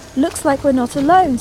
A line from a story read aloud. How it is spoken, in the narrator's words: said Tugs